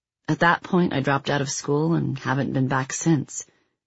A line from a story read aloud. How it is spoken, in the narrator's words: Kelly said